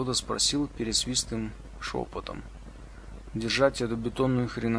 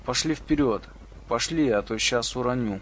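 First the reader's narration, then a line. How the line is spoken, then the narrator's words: Pleading. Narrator (Russian): Кто-то взмолился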